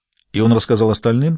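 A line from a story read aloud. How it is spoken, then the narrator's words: Plain. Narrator (Russian): спросила она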